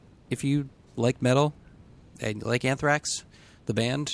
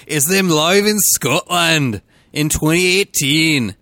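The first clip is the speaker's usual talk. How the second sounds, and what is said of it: Attempted put-on accent. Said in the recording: “You keep trying this accent. ... I can only do one accent.”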